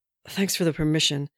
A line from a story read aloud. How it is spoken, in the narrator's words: Steve said, panting